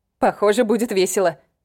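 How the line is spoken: Amused grunt. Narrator (Russian): хмыкнула Фейт

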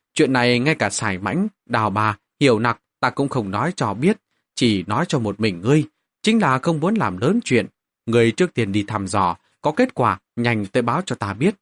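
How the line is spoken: Quiet interrupting. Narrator (Vietnamese): Mạnh Thiên Sở ngắt lời Vương Dịch, nhỏ giọng nói

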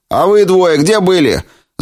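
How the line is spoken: Man shouting. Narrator (Russian): закричал человек в пробковом шлеме

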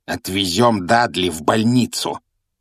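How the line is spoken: Growling uncle. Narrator (Russian): прорычал дядя Вернон

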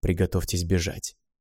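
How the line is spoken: Whisper. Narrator (Russian): шепнул

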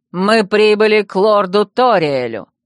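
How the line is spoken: Loud and clear. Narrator (Russian): громко и внятно произнес он

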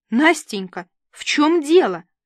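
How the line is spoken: Exclamation. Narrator (Russian): воскликнула Рита

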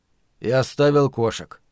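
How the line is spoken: Gloomy retort. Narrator (Russian): мрачно вернул Ларри

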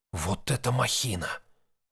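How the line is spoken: Breathless exhale. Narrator (Russian): выдохнул Ник

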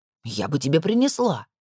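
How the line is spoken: Irritated. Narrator (Russian): раздраженно произнесла Нора

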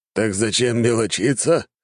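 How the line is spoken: Chuckling old man. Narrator (Russian): хохотнул старик

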